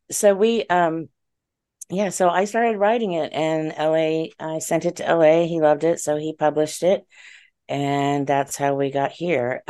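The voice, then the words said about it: Voice sounds a little off. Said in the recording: “my allergies are bothering me, so my voice is a little funny tonight”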